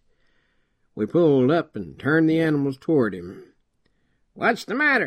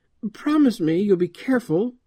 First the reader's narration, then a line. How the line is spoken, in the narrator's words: she pleaded